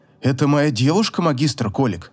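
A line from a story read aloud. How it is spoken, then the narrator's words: Embarrassed mumble. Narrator (Russian): смущенно пробормотал покрасневший до кончиков волос Эон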